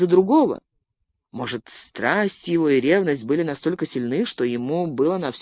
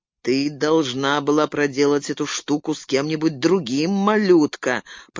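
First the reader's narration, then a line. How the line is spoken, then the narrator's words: Grumbled through clenched teeth. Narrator (Russian): проворчал я сквозь зубы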